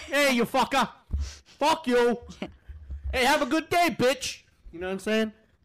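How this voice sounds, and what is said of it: Mock New York accent. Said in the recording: “That's how New Yorkians talk to each other.”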